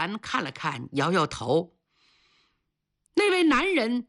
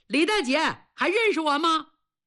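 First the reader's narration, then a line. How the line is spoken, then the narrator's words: Man calling out. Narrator (Chinese): 一个有30岁的汉子一进门就喊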